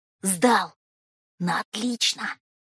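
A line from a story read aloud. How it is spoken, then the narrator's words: Whisper. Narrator (Russian): шепотом сообщил Волька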